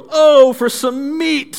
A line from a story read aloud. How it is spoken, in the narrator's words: they exclaimed